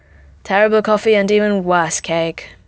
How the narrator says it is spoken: Howard sighed

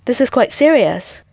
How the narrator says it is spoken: Mataka said, nervously clutching at his throat

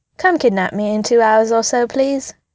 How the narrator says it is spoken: said calmly

